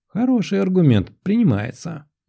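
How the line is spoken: Laughing. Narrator (Russian): засмеялась

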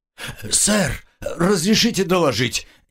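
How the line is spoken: Hoarse rasp. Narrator (Russian): прохрипел секретчик

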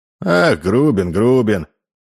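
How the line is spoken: Sigh. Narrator (Russian): вздохнул Карась

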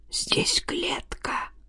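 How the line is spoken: Whisper over radio. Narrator (Russian): прошептал по рации

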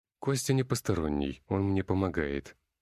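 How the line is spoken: Calm. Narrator (Russian): ответил я спокойно

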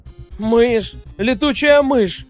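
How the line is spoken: Howling. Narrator (Russian): взвыл он

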